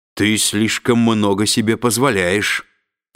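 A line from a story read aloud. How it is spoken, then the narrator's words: Prince's growl. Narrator (Russian): прорычал принц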